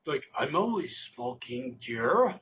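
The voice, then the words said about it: Poorly done put-on accent. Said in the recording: “that's a terrible accent”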